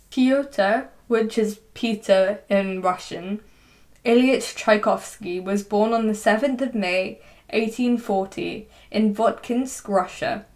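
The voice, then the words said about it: English accent pronouncing Russian names. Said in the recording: “my English accent whilst I'm saying Russian stuff”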